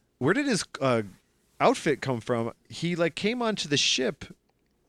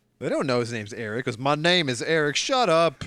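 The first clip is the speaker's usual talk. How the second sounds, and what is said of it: Weird put-on southern accent. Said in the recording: “What accent are you giving him? He's got like a weird southern accent.”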